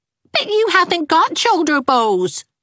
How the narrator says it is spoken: squeaked Geraldine

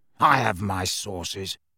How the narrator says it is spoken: said Filch in a self-satisfied hiss

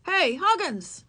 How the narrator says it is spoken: yelled the boy

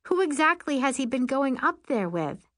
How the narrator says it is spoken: Allison laughs

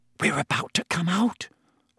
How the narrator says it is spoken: Hermione breathed

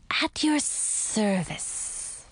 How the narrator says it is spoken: the snake hissed

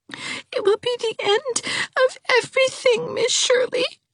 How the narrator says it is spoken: she sobbed

